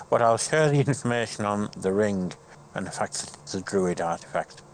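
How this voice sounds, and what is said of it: Put-on German accent. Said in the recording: “Why am I doing the German accent? I can't drop it now.”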